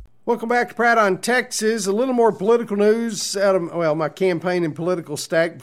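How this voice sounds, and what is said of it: Authentic Texas accent. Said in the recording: “the real talk of Texas with the authentic accent thrown in free”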